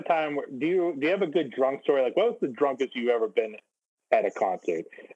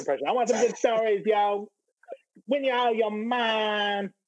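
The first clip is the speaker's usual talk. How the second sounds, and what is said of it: Poor imitation of another person's voice. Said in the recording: “That's a very bad Fred Durst impersonation.”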